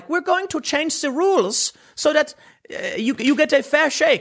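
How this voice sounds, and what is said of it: Poor put-on accent imitating someone. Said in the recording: “my accent's probably terrible. It's more like a Greta Thunberg.”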